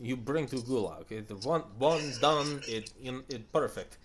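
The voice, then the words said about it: Bad put-on Russian accent. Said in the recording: “I see your horrible Russian accent is as good as mine.”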